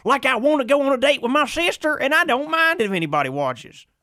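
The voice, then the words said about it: Exaggerated thick Southern accent. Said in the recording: “It is a thick Southern accent doing a Southern accent.”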